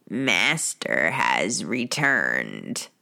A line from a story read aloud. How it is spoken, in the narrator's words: Creature croaked in his bullfrog voice, peering up at Sirius with a look of disdain